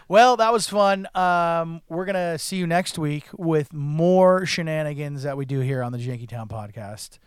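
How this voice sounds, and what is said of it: Hoarse, strained voice. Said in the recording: “Did my voice sound weird on this one? I sound like Charlie Day... I'm losing it. I'm losing my voice.”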